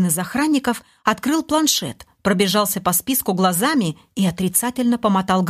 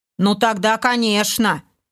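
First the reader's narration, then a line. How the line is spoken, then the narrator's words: Snide smirking orc agreement. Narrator (Russian): Ехидно улыбаясь, согласился второй орк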